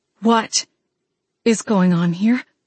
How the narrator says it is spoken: I asked, my voice trembling with a mixture of concern and confusion

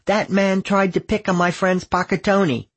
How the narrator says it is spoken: shouting

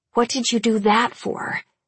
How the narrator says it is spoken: I hiss

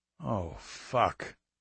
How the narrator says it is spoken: McLean said quietly

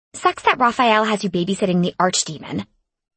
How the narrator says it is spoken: she spat, glowering at me

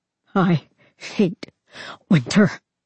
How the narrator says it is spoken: Varian sobbed

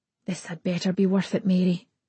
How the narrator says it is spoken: I mutter

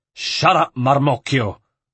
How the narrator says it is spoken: Lodovico snarled at him

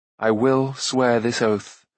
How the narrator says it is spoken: he said slowly

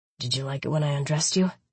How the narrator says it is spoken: He whispered huskily

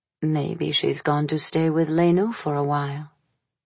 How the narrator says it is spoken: It was Maria who said softly

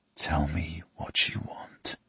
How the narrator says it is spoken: I whisper into her ear

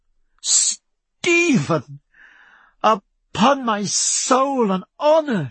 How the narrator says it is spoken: she cried

